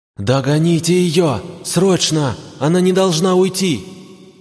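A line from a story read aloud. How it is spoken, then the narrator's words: Shout. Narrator (Russian): закричала Йоримару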